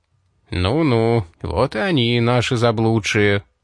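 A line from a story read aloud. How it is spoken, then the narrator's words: Purring voice. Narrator (Russian): Его мурлыкающий голос показался Дэйну самой прекрасной музыкой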